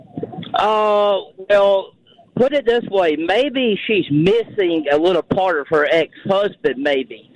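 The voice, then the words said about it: Southern US country accent. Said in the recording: “You have quite the accent. Where are you from? ... I'm actually from Southwest Georgia. ... a country accent”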